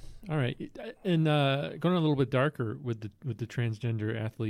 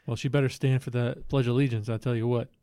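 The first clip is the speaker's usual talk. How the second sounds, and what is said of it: Put-on Southern American accent. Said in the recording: “That's my Southern accent.”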